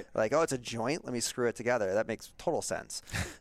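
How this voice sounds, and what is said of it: Sarcastic tone. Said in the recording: “being sarcastic. ... being sarcastic. ... It's being sarcastic.”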